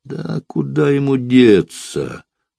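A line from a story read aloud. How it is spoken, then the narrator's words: Deep bass reply. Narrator (Russian): басом ответил Морбит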